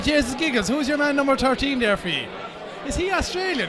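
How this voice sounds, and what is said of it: Put-on Tipperary Irish accent. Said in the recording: “I'll do my best Tipperary accent”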